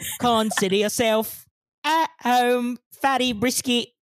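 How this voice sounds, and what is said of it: Usual voice. Nothing is said of it.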